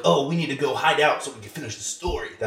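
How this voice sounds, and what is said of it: Imitates another person's voice, badly. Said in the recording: “my Jack Black impression. It was really bad”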